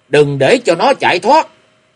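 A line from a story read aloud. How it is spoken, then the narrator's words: Many voices shouting. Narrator (Vietnamese): Có nhiều tiếng quát tháo vang lên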